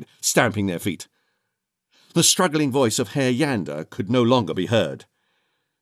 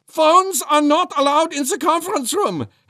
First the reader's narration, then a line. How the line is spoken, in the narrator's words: Herr Yander said, his voice rising an octave